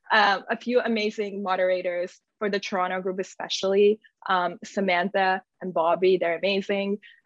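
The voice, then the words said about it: Strained, hoarse voice. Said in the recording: “losing my voice.”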